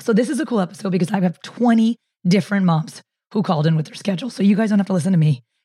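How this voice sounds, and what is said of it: Hoarse, strained voice. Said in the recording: “Sorry about my voice. I'm struggling hard. I get laryngitis”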